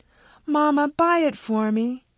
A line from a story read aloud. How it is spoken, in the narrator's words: the other one pleaded